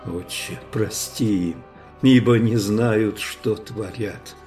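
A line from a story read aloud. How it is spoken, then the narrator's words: Very quiet, from above. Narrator (Russian): тихо-тихо прозвучало с креста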